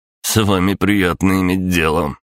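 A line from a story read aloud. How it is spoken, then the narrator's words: Snort. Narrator (Russian): хмыкнул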